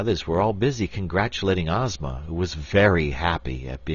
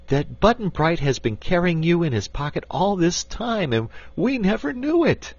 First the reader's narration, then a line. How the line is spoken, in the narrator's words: cried Dorothy